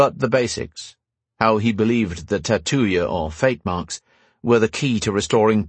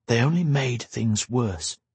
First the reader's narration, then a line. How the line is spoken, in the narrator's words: Roan whispered